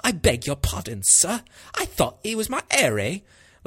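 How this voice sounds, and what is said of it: Exaggerated stereotypical Cockney English accent. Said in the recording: “the most stereotypical English accent ... I really enjoy your Cockney accent there”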